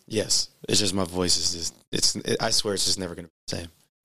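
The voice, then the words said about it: Raspy voice. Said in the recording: “You can hear that he's still kind of raspy.”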